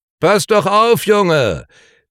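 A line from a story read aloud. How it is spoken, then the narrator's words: Calling out. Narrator (German): rief Marcellus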